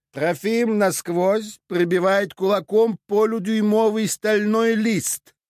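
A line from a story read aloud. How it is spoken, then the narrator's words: Loud and fluent. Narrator (Russian): Фразу Леня произнес громко, ни разу не запнувшись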